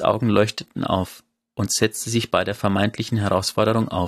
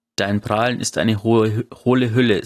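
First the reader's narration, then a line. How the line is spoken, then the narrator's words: Rumbling laugh. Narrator (German): sagte Nick mit einem brummenden Lachen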